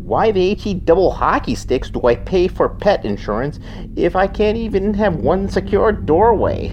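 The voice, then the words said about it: Minnesotan accent. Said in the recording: “said in a Minnesotan accent”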